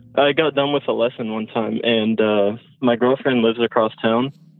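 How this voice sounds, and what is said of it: Out of breath. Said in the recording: “Sorry, I'm at work, so I'm kind of out of breath.”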